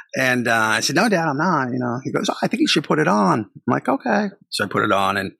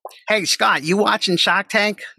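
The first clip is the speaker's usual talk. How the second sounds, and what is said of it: Strong put-on Boston accent. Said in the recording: “let me say that with a really strong Boston accent.”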